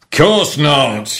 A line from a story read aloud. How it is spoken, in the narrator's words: yelled the captain